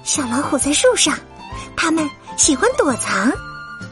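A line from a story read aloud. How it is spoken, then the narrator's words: Whisper. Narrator (Chinese): 阳光小姐悄声说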